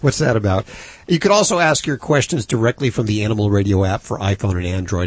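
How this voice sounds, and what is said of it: Hoarse, fading voice. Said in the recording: “I'm already losing my voice”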